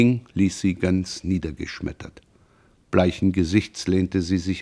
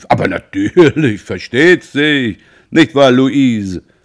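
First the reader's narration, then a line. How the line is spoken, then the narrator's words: Calling out. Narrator (German): Roland rief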